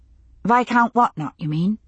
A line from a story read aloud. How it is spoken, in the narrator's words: He sighed deeply